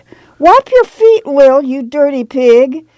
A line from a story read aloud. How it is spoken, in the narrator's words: Grandma cried